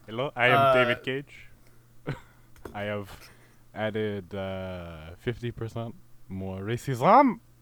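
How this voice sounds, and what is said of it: Exaggerated French accent impression. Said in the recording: “He's French. It's a really good impression. ... Yeah, no, spot on. ... A French impression.”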